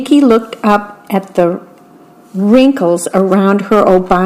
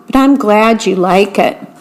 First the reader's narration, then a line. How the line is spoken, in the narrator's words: her grandmother laughed